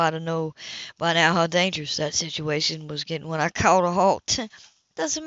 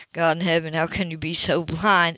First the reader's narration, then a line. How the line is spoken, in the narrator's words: He growled